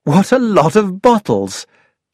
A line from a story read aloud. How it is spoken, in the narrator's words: I exclaimed